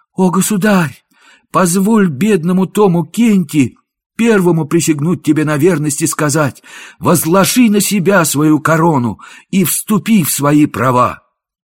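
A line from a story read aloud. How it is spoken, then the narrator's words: Joyful exclamation. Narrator (Russian): Мнимый король с радостным лицом … воскликнул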